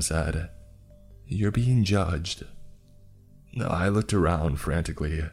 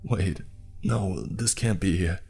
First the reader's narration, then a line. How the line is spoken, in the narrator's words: I stammered